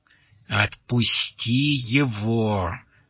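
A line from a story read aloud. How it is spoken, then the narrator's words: Angry hiss. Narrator (Russian): злобно шипел голос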